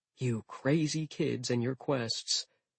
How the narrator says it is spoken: He sighed

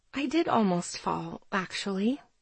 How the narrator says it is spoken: I whisper

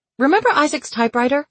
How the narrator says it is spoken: she blurted

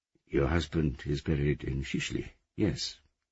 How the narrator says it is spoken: he said

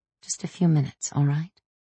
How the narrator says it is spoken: I whispered to Nino

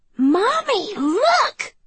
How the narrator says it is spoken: Ella squealed

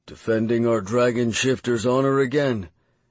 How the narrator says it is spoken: West said dryly

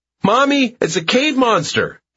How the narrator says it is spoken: he runs away screaming

